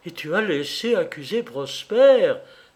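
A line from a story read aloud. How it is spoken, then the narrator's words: Exclaiming. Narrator (French): s'écria-t-elle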